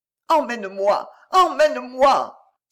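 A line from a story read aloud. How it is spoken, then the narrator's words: Muffled pleading. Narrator (French): supplia-t-elle d'une voix étouffée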